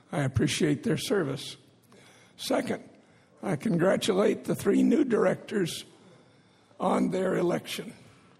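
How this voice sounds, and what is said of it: Strained, damaged voice. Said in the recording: “apologize for my voice, my left vocal cord”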